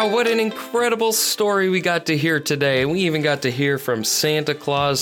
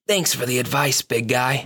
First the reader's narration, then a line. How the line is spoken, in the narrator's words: smiled and whispered